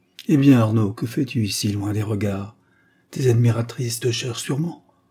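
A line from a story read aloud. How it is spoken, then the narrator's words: Half-smiling murmur. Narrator (French): murmura-t-il avec un demi-sourire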